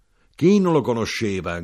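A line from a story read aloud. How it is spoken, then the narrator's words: Knife grinder shouting. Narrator (Italian): gridò l'arrotino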